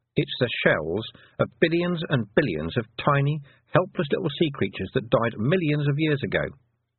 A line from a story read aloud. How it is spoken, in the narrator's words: said Miss Tick